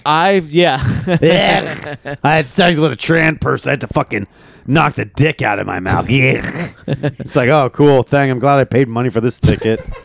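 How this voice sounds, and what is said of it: Impression with throat-clearing. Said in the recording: “very good Norton impression ... he always just does like clearing out his fucking throat”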